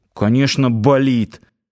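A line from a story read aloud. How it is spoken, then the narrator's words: Gruff mutter. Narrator (Russian): буркнул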